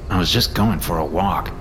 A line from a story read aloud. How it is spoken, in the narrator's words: I mumbled